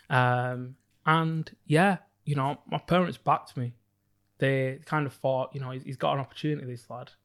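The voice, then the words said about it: Northern English accent. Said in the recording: “I grew up on a council estate in Bolton in the Northwest... I couldn't tell by the accent.”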